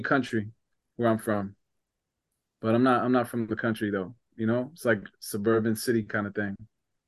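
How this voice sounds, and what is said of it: New Jersey accent. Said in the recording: “I'm from New Jersey ... They hear my accent”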